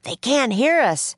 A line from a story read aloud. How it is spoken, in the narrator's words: yelled Jack